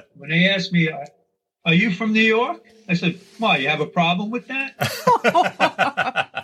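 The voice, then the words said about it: New York accent. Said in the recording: “does anybody know you're from New York by your accent? ... instantly ... you don't have a bad New York accent ... everybody knows right away”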